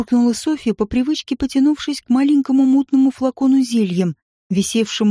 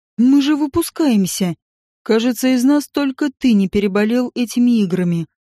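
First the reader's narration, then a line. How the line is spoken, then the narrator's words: Snort. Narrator (Russian): хмыкнул Рэндалл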